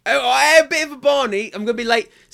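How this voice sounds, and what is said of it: Put-on East London accent. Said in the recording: “attempting an East London accent again”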